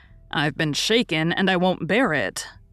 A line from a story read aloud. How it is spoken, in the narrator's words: growled Lori indignantly